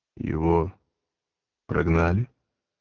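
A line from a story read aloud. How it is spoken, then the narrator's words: Strangled voice, asking. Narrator (Russian): сдавленным голосом спросил Пилат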